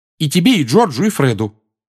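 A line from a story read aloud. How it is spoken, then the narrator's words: Angry clarification. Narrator (Russian): сердито уточнила она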